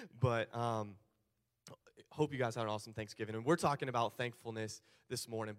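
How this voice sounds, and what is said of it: Slightly hoarse, worn-out voice. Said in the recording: “my voice is a little shot”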